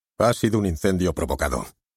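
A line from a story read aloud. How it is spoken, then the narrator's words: Firm, categorical tone. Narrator (Spanish): nos dijo con tono categórico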